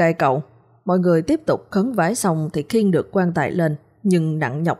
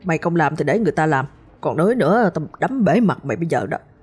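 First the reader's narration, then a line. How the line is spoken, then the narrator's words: Harsh growl. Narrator (Vietnamese): Cậu ba mới gằn giọng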